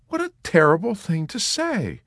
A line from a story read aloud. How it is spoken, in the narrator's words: Nurse Kramer exclaimed